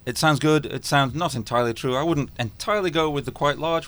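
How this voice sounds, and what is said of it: Scottish accent. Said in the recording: “You can probably tell by my accent that I'm not from around here... We're a Scottish company”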